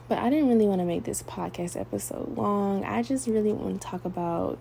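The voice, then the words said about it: Soft, gentle speaking voice. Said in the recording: “see how I'm talking to y'all? I'm talking to y'all in my soft voice”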